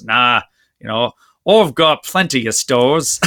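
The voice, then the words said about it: Poor put-on Australian accent. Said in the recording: “you got to do the Australian accent ... there's my crappy Australian accent for all you fans”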